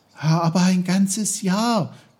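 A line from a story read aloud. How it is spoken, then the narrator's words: Calling out. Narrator (German): rief Peter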